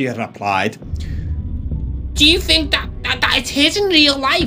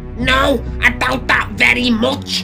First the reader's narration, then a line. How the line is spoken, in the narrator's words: his mother snarled